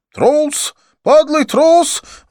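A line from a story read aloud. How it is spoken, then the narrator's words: Shouted. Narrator (Russian): выкрикнул Аршан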